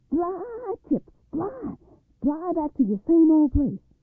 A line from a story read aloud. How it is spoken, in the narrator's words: hollered